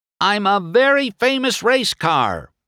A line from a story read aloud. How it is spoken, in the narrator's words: shouted